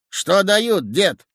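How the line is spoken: Shout. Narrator (Russian): Водитель крикнул

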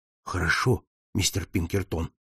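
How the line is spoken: Low-voiced reply. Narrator (Russian): ответил он вполголоса

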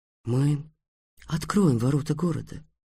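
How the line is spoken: Soft. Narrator (Russian): мягко сказал Абнувас

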